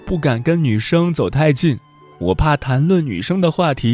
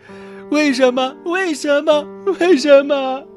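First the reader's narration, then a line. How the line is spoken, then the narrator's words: Crying and shouting. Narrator (Chinese): 小雅边哭边喊着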